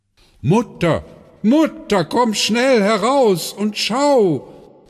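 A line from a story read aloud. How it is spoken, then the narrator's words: Called out. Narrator (German): rief Björn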